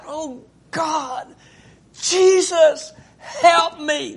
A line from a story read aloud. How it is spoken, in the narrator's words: so sick and you cried out